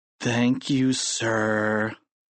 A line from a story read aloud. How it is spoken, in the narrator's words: moaned the two boys